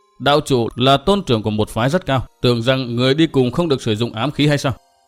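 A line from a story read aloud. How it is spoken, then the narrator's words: Sneering old man. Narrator (Vietnamese): Hương lão gia cười nhạt lên tiếng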